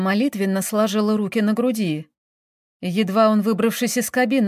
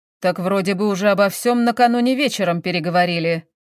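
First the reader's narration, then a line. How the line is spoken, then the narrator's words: Displeased grumble. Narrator (Russian): недовольно проворчал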